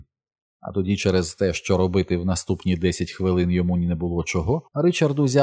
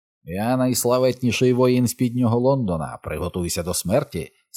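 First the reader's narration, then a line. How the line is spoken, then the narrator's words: Menacing troll voice. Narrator (Ukrainian): сказав він небезпечним тролячим голосом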